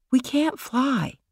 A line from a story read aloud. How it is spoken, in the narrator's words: Michael said quietly